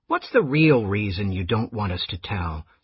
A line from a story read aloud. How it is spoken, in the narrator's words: Scrounger asked in an undertone